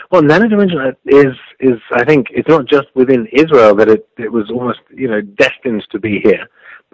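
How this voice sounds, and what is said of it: Non-native English accent. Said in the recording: “we certainly can tell from your accent, you're not a native born.”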